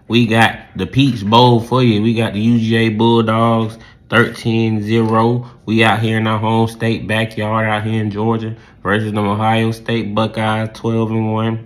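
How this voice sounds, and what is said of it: Southern country accent. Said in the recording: “down here in the Dirty South. You hear the country accent.”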